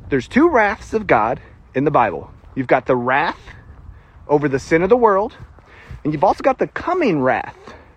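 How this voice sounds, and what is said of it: Thick Southern country accent. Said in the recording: “my country fried accent.”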